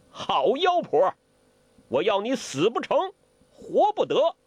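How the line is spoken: Shocked and furious. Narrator (Chinese): 欧阳克已经吓出了一身冷汗，又惊又怒

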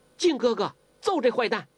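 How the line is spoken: Shouting from outside. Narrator (Chinese): 黄蓉在窗子外边叫起来了

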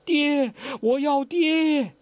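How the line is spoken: Crying out. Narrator (Chinese): 黄蓉……只是哭叫

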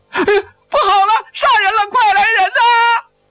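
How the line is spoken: Shouting. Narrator (Chinese): 王小二大喊

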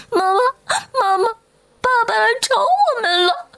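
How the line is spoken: Crying children. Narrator (Chinese): 两个孩子…哭着…说

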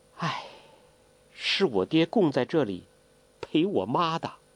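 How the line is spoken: Long sigh. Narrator (Chinese): 黄蓉长叹一声

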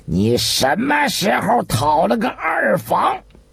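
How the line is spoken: Furious loud scolding. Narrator (Chinese): 见一连两问尤其都不肯如实招来，张居正已是盛怒，于是一下子吊起了嗓子，大声的斥道

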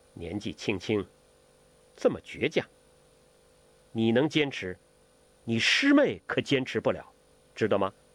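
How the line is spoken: Faint smile. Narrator (Chinese): 那个女子淡淡一笑

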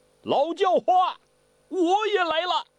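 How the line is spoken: Harsh, metallic, grating. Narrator (Chinese): 这个声音就像金铁相击，很刺耳

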